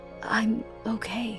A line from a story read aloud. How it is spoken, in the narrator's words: whispered, pained